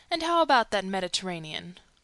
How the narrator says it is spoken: the Canadian asked in a gently mocking tone

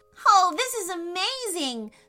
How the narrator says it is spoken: Sophie shouted

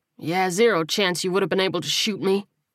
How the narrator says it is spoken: Coleman grunted

